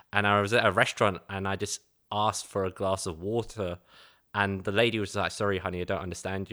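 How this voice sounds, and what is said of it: East London Cockney accent. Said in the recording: “Growing up in East London, we speak with this Cockney accent where we say stuff like water or water because we don't pronounce our like A's or our T's”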